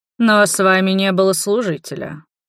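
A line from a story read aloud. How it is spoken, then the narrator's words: Skeptical snort. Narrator (Russian): хмыкнул Гилмор скептически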